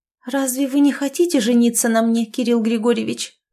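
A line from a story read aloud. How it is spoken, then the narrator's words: Bewildered babbling. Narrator (Russian): пролепетала в недоумении Оленька, чувствуя, что земля уходит у нее из-под ног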